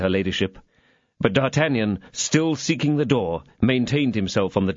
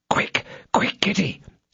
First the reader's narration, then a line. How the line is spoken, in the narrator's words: said D'Artagnan in a whisper